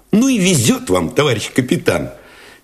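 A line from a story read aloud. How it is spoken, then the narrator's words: Cheerful, admiring exclamation. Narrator (Russian): Весело, даже восхищенно воскликнул Алешин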